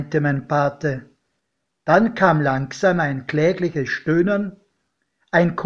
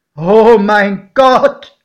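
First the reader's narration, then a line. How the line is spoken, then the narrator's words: Calling out. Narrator (German): rief mein Pate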